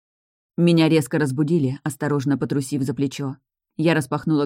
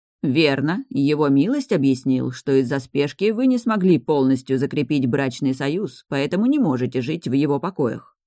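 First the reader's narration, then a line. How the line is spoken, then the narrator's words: Calm man. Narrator (Russian): спокойно ответил мужчина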